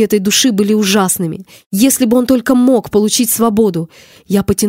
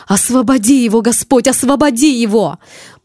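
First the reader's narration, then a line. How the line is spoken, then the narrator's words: Exclamation. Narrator (Russian): Я воскликнула Иисусу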